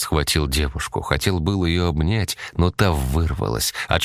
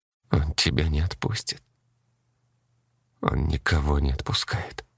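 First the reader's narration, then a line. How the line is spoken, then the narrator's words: Muttered. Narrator (Russian): пробормотала она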